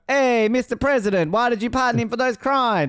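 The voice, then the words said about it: Put-on Spanish accent, sounds Italian. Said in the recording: “that's a great Spanish accent, too ... Sounds Italian.”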